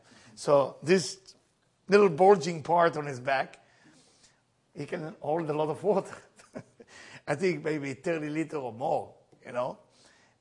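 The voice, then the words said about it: Strong accent. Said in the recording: “my accent sounds really bad”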